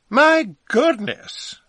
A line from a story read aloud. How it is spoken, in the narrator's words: cried